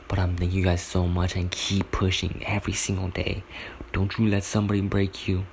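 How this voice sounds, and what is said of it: Whispering. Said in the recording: “it sounds like I'm whispering, because I kind of am”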